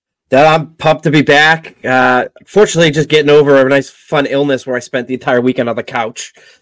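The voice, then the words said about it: Slightly raspy voice. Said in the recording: “You probably hear my voice here a little raspy”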